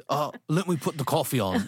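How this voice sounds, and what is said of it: Bad put-on British accent. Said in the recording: “terrible British accent”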